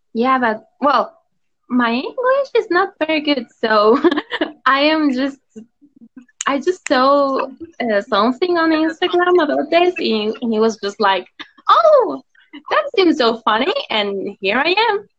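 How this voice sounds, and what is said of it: Mexican-accented English. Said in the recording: “Your accent is gorgeous ... I'm Mexican”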